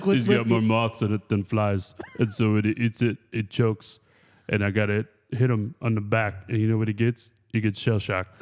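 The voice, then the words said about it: Imitates another person's voice. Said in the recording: “You like my Stallone impersonation?”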